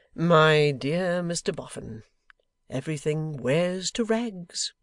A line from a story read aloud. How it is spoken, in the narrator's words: said Mortimer, with a light laugh